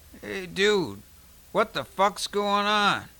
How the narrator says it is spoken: A husky voice from behind him called out groggily

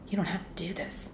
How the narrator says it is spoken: Hank whispered in my ear

